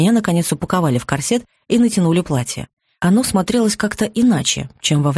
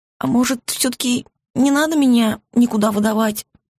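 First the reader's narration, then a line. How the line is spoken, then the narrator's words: Hopeless whimper. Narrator (Russian): Безнадежно проскулила я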